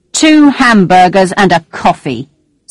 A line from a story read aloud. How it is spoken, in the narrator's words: said angrily